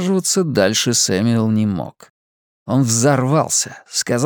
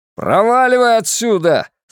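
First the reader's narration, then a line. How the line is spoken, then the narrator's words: Angry shout. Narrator (Russian): заорал Сэмюэл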